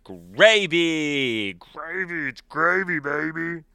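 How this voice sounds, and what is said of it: Growly monster voice. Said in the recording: “monster voice”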